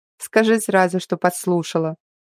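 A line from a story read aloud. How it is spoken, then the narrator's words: Snorting. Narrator (Russian): фыркнула я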